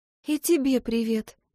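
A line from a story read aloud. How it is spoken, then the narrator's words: Smiling murmur. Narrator (Russian): пробормотала я, улыбнувшись прямо в поцелуй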